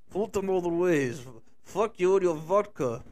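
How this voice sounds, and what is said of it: Put-on Russian accent. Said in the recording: “fake that you Russian accent”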